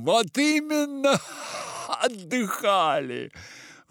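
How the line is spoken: Exclamation, prince. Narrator (Russian): воскликнул князь

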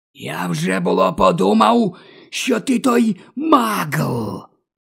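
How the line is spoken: Hissed. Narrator (Ukrainian): Просичав Морфін

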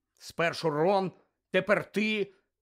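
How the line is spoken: Angry grumble. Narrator (Ukrainian): сердито буркнув Гаррі

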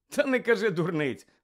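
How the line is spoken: Laughing. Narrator (Ukrainian): розсміявся Рон

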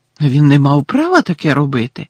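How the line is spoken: Shocked exclamation. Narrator (Ukrainian): вражено вигукнула Герміона

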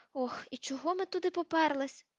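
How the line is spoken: Groan after silence. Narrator (Ukrainian): простогнала після кількох хвилин мовчання

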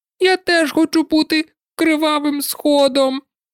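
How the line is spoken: Thin squeaky voice. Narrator (Ukrainian): пропищав Гай тонесеньким голоском

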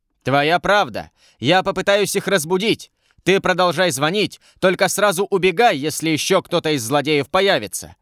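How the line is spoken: Guard shouting. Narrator (Russian): крикнул стражник

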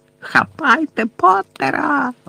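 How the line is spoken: Shrieked. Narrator (Ukrainian): заверещала Белатриса

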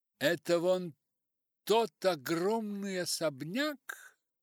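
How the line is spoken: Exclamation. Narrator (Russian): воскликнула она

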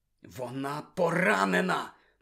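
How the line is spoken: Whisper. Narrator (Ukrainian): прошепотів Гаррі, низенько схиляючись над совою

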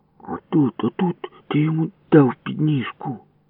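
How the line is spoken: Muttered. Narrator (Ukrainian): Бурмотів Ява

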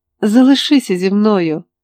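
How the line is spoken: Shouting, male. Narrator (Ukrainian): закричав він

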